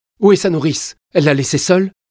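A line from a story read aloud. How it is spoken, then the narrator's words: Exclaimed. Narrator (French): s'exclama Catherine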